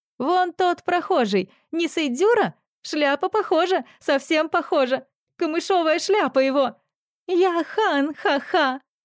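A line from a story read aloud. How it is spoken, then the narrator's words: Wild laughing shout through tears. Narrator (Russian): слезы градом посыпались из ее глаз, но она сейчас же дико захохотала, выкрикивая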